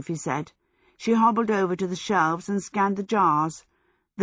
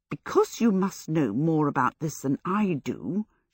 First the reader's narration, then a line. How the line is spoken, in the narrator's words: she muttered at it